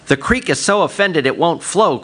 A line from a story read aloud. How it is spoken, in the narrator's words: cried Quail